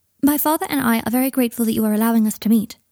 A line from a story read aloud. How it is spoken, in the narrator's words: he said, in the same formal tone Harry remembered him using that first time in Diagon Alley